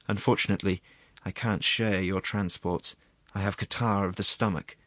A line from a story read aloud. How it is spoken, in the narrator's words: The assistant prosecuting attorney made a sour face and said, sighing